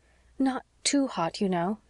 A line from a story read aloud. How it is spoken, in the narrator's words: said Anne anxiously